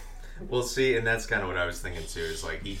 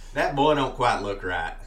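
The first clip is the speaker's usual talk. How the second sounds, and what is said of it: Put-on Southern American accent. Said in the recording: “let me do my Southern accent for this one.”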